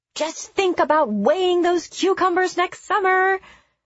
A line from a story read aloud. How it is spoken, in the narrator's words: she called out